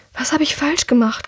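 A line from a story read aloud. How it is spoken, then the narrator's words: Breathless panting. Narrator (German): keucht Drea, noch immer schwer atmend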